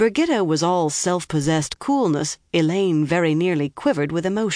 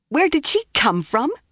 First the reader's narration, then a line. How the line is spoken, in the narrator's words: she spluttered